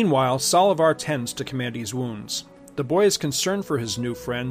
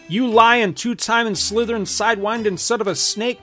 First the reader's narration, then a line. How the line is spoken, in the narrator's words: cries the large red-headed woman who put him out